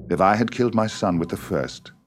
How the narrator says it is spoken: said William calmly

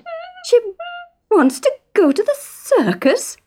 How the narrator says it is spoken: stammered Isa

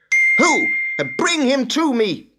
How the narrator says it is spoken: cried Saul

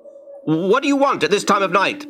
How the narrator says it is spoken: Ben shouted

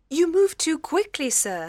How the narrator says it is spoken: she cried

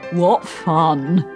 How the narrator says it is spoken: said, and chuckled

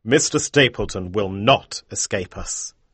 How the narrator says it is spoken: Holmes told her sternly

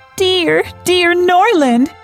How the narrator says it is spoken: cried Marianne

